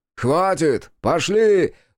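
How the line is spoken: Screaming. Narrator (Russian): завопил Тору

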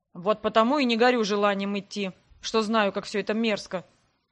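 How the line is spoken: Grumbling. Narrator (Russian): пробурчал Грег

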